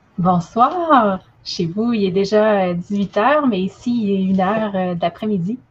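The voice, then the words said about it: Quebec French accent. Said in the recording (French): “Vous allez l'entendre à son merveilleux accent ... vive le Québec libre”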